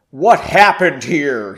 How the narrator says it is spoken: he boomed

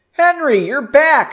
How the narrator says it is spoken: she exclaimed

